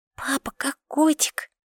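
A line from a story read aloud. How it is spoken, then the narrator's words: Small child's whisper. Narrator (Russian): шепнула моя крошка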